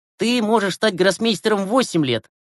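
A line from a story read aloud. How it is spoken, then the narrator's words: Scoffing. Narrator (Russian): хмыкнул Глеб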